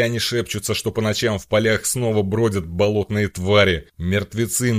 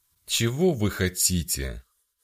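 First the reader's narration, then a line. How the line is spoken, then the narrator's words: Tired question. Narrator (Russian): Устало спросила мать Виорелла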